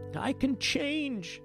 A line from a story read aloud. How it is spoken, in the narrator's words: the king begged